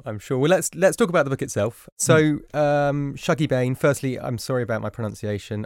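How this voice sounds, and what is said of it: Flat London accent. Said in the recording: “my sort of flat London brogue”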